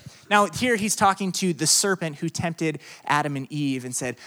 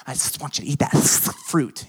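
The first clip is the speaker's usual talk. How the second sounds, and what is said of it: Snake character voice. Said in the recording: “that's my snake impersonation”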